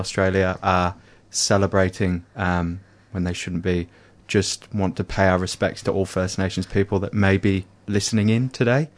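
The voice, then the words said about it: British accent. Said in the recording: “obviously with my accent ... in Britain”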